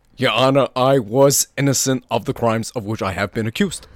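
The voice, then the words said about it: Imitates another person's voice. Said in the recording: “That was Bernie Sanders imitating Jussie Smollett”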